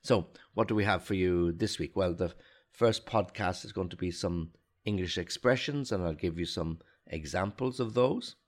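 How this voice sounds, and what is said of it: Slightly sick-sounding voice. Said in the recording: “Still have a little bit of a cold, so again, apologies if my voice is not the same as it usually is.”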